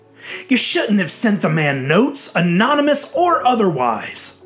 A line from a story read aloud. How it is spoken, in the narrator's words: Uncle Al said sharply